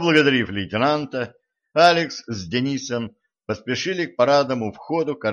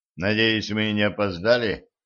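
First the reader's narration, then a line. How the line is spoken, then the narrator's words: Mumbled, intern. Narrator (Russian): пробормотал стажер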